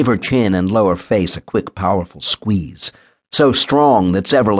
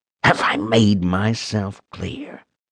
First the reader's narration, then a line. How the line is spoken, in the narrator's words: whispered through clenched teeth